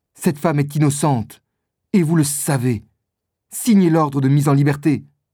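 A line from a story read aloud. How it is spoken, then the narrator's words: Exclaimed. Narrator (French): s'écrie Felton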